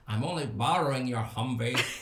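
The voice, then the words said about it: Imitation of Sean's accent. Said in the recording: “you do an accent better ... His accent is really hard.”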